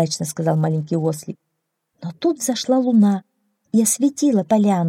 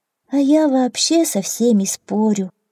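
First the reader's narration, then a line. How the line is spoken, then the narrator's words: Sad admission, small donkey. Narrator (Russian): грустно признался маленький ослик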